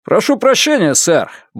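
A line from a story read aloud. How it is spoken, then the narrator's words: Cheerful. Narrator (Russian): бодро говорит морской пехотинец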